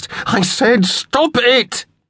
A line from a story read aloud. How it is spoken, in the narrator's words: yelled, loud enough to sear his throat